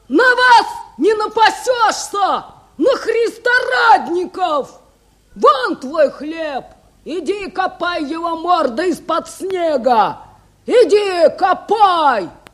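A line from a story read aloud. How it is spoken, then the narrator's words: Shouting. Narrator (Russian): Филька закричал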